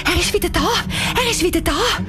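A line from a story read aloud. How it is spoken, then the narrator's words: Excited. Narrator (German): sagt aufgeregt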